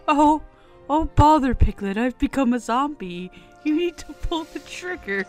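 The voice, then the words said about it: Bad Winnie the Pooh impression. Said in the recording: “my shitty Jim Cummings impression ... Winnie the Pooh”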